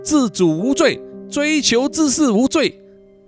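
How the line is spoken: Firm loud shout. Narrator (Chinese): 城市警察队呀，坚定的大声叫喊

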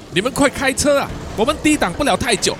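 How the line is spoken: Shouting. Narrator (Chinese): 塔布什大喊说

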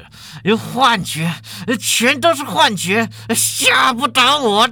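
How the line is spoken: Through gritted teeth. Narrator (Chinese): 法主任咬牙切齿

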